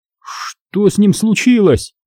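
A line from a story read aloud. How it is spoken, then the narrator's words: Frightened question. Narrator (Russian): испуганно спросил Харман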